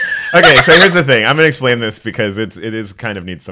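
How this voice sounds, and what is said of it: Usual voice. Nothing is said of it.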